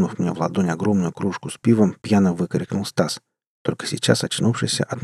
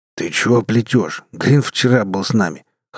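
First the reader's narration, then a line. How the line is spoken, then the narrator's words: Scoffing snort. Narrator (Russian): хмыкнул Брас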